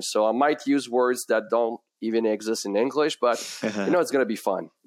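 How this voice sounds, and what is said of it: French accent. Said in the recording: “if you hear that beautiful accent, it's because my first language is French”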